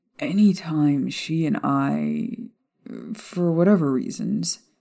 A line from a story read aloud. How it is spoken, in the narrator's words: Sirius sighed, as though admitting these fears would let her slip away from him